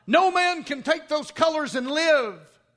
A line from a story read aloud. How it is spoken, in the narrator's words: Lieutenant Blair, seeing the prostrate flag and knowing its recent history, yelled out